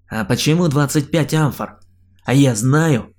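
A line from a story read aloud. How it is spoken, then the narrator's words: Snapping back. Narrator (Russian): огрызнулся я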